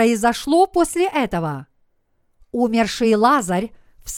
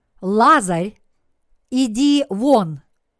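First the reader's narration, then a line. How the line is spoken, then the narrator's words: Loud voice. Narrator (Russian): он сказал громким голосом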